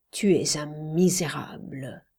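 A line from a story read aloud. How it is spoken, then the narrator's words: Rumbling voice bursting out. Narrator (French): une autre voix qui grondait en sourdine éclata, brisant tout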